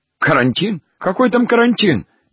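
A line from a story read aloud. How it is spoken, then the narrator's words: Incoherent babbling. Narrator (Russian): бессвязно лепетал Гуськин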